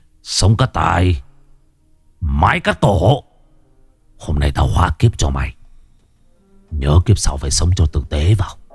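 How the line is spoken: Harsh, stressed voice. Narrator (Vietnamese): Đinh Văn Lâm gằn giọng

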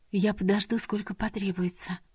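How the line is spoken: Young woman whispering. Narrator (Russian): прошептала девушка

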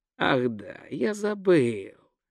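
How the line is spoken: Thoughtful drawl. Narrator (Russian): задумчиво протянул Гончия

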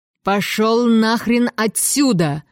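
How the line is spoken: Yelling. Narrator (Russian): заорал Реймонд

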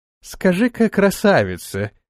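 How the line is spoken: Oily teasing. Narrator (Russian): елейным голосом, дразня тварь, спросил Антон

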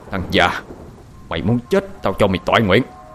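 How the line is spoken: Menacing low growl. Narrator (Vietnamese): Hai Phúc bước tới gần, cúi xuống gằn giọng

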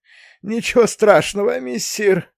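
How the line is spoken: Wheezy cat voice. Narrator (Russian): просипел кот

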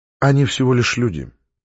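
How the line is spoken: Quiet. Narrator (Russian): негромко сказала Наталья

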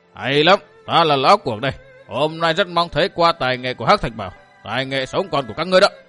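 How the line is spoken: Arrogant angry old man's roar. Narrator (Vietnamese): Khiến tính cuồng ngạo pha lẫn sự giận dữ, lão gắt gầm lên

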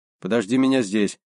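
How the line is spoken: Plain. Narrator (Russian): сказал я

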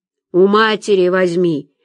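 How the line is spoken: Barking cop. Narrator (Russian): рявкнул мент

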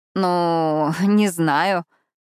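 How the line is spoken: Hesitant drawn-out reply. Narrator (Russian): протянула я

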